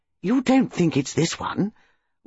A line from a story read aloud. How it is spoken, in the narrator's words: Bantry exclaimed